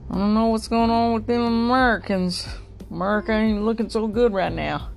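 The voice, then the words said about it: Put-on Southern country accent. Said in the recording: “in a somewhat southern country accent, that's kind of how I'm saying it”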